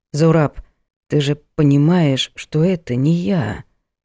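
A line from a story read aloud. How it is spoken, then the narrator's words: Hoarse question. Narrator (Russian): сипло спросил у него хромой афганец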